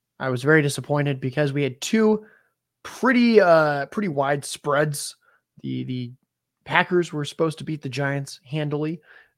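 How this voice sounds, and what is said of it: Sick-sounding voice. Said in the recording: “I'm still sick, as you can probably tell by my voice.”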